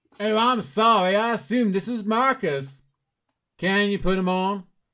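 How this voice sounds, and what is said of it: Exaggerated put-on Texan accent. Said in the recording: “your Texan accent went further down the line. That was quite astonishing ... that accent brought them right back in the room”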